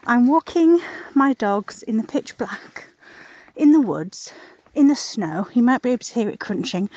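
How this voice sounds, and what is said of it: Breathless, out-of-breath speech. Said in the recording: “out of breath”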